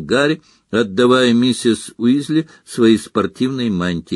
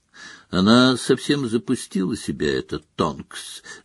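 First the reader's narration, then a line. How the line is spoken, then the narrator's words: Thoughtful murmur. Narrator (Russian): задумчиво пробормотала Флер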